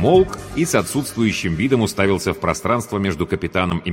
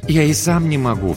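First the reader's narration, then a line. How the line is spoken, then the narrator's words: Sigh. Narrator (Russian): вздохнул Промон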